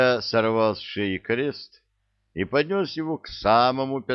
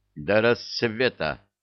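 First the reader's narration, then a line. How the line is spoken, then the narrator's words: Stern. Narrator (Russian): строго сказал Илья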